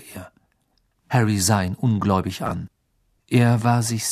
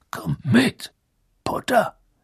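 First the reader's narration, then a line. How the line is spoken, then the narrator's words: Growled. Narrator (German): knurrte er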